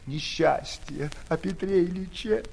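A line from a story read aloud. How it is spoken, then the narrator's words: Sobbing. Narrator (Russian): всхлипнув, проговорила она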